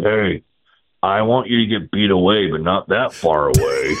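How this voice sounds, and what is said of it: Impression of Bruce Bochy. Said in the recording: “that's a solid Boch impersonation”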